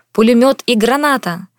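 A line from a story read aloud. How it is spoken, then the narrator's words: Shouted. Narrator (Russian): крикнул Максим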